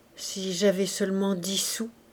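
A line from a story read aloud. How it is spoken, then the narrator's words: Soft murmur. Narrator (French): murmura Gervaise à voix basse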